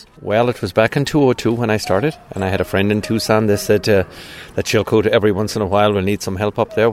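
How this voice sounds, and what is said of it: Irish accent. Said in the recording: “that sure doesn't sound like an Arizona accent to me... I'm originally from Ireland... County Cork”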